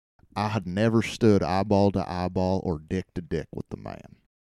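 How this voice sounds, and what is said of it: Put-on Southern accent. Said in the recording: “For Holland, I have to do the accent. Have to do it. ... I might be just a normal Southern gentleman.”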